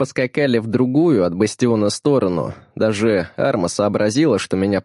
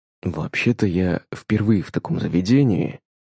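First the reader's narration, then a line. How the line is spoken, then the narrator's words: Whispered. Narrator (Russian): прошептал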